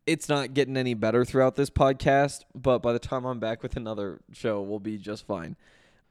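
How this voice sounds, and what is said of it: Hoarse, strained, nearly lost voice. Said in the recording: “My voice is gone, but you probably picked up on that.”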